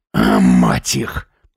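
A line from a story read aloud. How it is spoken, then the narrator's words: Growl. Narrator (Russian): зарычал Сергей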